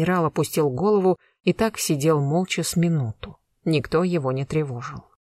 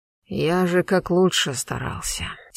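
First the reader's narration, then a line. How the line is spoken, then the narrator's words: Quiet. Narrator (Russian): тихо продолжил Константин Федорович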